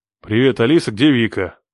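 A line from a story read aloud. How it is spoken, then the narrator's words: Angry growl. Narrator (Russian): Зло прорычал я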